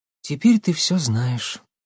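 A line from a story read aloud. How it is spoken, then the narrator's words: Young woman, sad. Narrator (Russian): грустно произнесла девушка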